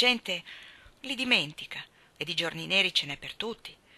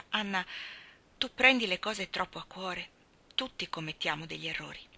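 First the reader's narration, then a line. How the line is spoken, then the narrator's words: Very gentle. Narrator (Italian): le disse con grande dolcezza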